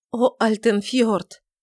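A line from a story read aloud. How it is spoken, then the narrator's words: Stormy sobbing. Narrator (Russian): И Тельма бурно разрыдалась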